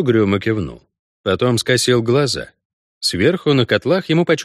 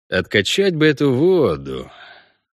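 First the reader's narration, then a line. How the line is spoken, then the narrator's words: Sighed. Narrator (Russian): вздохнул Геральт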